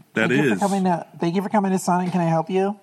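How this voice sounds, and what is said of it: Put-on girl voice. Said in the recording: “is that more of a girl voice? ... That's a Sonic girl voice.”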